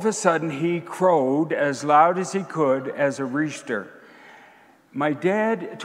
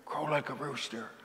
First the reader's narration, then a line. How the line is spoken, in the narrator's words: my dad whispered in my son's ear